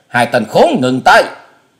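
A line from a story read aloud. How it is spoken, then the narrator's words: Thunderous old man roar. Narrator (Vietnamese): tiếng thét của lão già tựa như sấm nổ lưng trời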